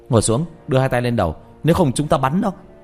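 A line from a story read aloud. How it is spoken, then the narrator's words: Barked command. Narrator (Vietnamese): Một người cầm đèn pin quát lên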